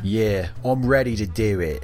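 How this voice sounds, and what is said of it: Poor put-on Australian accent. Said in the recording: “You sounded like a henchman from a Disney cartoon. ... It's me Australian accent. ... I don't know what that is.”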